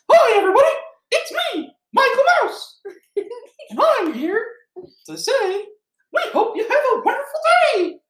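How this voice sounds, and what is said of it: Cartoon mouse character voice. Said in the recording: “Do you want me to be Michael Mouse? ... Yeah, Michael Mouse.”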